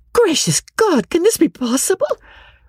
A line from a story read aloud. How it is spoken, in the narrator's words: Marianne, in an ecstasy of indignation, cried